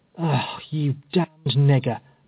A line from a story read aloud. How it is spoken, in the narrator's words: muttered Epps in a surly, malicious tone of voice